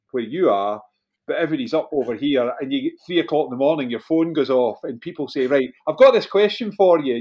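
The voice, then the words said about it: Glasgow Scottish accent. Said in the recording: “Radio DJ in Scotland, remember? So as a result, West Coast of Scotland, Glasgow accent comes with the radio DJ bit.”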